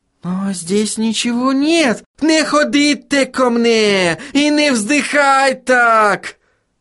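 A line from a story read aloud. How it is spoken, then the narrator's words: Howling. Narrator (Russian): взвыл Отто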